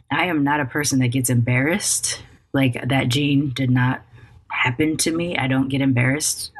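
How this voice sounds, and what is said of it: Hoarse, tired voice. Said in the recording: “I'm so exhausted. I can't tell if my voice, I'm pretty sure my voice is hoarse”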